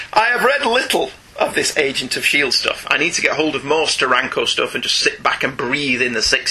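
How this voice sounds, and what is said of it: Usual voice. Nothing is said of it.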